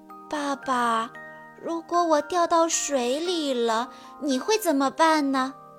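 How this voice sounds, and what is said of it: Soft, quiet child's voice. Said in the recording (Chinese): “小声地问爸爸”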